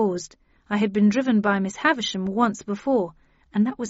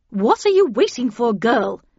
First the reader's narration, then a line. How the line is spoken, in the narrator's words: said Havisham impatiently